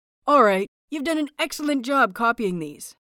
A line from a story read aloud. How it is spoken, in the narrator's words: he says brightly